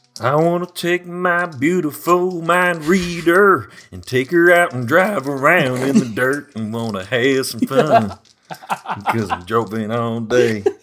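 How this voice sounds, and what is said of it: Sung country-style character voice. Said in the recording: “starts singing a country song ... What is that voice?”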